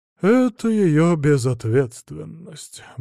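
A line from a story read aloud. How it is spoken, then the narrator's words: Grumbled. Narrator (Russian): буркнул поп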